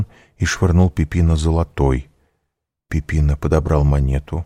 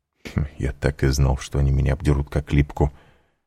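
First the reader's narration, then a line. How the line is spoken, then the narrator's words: Muttering. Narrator (Russian): пробормотал Данглар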